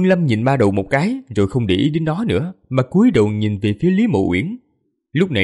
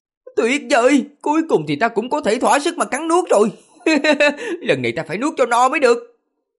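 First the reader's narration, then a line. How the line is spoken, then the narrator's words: Gleeful howl. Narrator (Vietnamese): đầu gào lên một cách sung sướng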